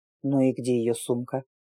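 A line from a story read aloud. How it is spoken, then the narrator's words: Mutter under breath. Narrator (Russian): пробурчал под нос осмелевший незнакомец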